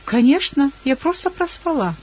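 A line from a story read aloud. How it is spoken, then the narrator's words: Cheerful reply. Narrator (Russian): На что я весело ответила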